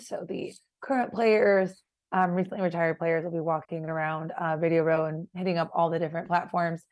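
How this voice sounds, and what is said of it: Hoarse, strained voice. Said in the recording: “I have lost my voice, as you can tell, because there's been a lot of interviewing, a lot of socializing, networking.”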